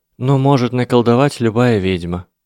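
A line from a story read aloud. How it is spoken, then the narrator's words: Sighing. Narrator (Russian): вздохнула Гермиона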